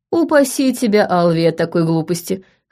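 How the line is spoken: Laughing chuckle. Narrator (Russian): хохотнул Тим

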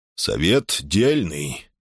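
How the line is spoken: Detached indifferent voice. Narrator (Russian): проговорил он совершенно чужим, безразличным голосом

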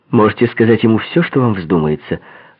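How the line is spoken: Curt, sharp. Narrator (Russian): резко бросила она

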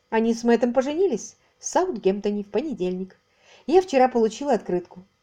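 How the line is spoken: Calm report. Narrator (Russian): спокойно сообщила миссис Лавкадио

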